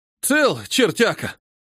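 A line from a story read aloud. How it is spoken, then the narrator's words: Exclaimed. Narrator (Russian): воскликнул Петр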